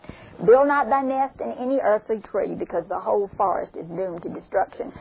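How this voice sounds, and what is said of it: Southern American accent, slurred words. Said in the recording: “me with my southern accent, I'm slurring the words”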